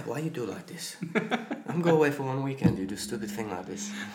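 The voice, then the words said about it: Good put-on Russian accent. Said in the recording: “Sergei's your Russian coach. ... That's a good accent. ... Yeah, it's very good.”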